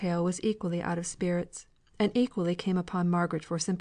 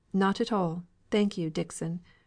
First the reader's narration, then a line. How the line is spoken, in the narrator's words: replied Margaret coldly